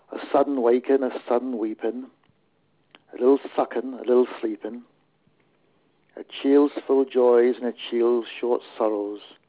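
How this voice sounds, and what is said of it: Put-on Devon accent. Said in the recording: “the Devon poet ... I'm afraid I can't vouch for the authenticity of the accent.”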